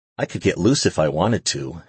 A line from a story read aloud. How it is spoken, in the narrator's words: she said breathlessly